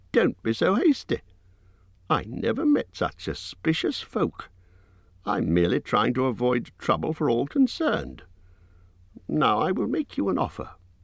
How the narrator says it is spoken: squeaked Bilbo

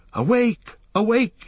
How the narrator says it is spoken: he cried

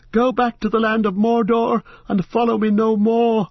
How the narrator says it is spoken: His voice sounded thin and shrill in his own ears

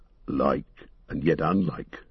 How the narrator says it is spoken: muttered Gimli

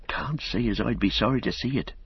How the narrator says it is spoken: said Robin, lowering his voice

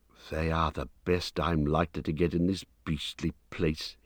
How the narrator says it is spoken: he muttered

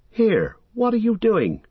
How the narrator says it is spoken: cried Sam, his suspicions coming back as soon as he saw the shape

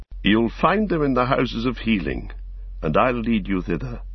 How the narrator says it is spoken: said Imrahil

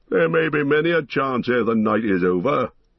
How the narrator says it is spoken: laughed the dwarf

